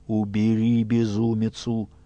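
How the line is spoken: Commanding through gritted teeth. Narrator (Russian): Тысяцкий Ратибор сквозь зубы приказывает

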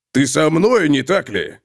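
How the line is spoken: Menacing question. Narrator (Russian): грозно спросил Готрек

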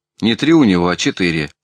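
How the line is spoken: Sharp. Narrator (Russian): резко сказал Никитин

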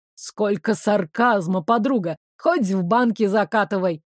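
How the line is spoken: Snorting smirk. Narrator (Russian): Дамиан хмыкнул

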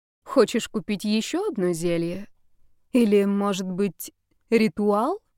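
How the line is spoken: Purring. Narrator (Russian): промурлыкала Ольга

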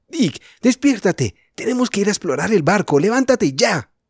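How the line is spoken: Shouted. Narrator (Spanish): le gritó a su hermano

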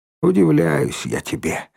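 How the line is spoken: Sighing. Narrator (Russian): вздохнула Ленка

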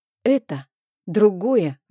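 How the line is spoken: Exclamation. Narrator (Russian): воскликнула

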